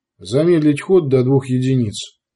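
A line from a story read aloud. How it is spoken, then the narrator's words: Even-voiced command. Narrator (Russian): распорядился ровным голосом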